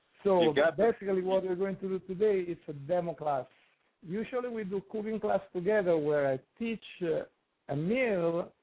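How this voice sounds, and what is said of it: Sexy foreign accent. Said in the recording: “the sexy accent”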